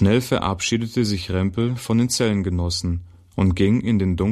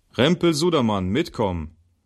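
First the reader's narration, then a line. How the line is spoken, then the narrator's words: Called out. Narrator (German): rief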